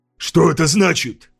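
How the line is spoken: Snapped. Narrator (Russian): огрызнулся

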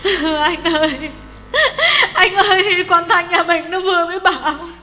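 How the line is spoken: Sobbing. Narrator (Vietnamese): Hường nức nở

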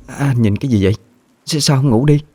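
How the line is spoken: Stammering. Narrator (Vietnamese): Cô lắp bắp nói

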